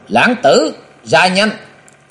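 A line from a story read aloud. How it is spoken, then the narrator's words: Loud shout. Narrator (Vietnamese): giọng người quát lớn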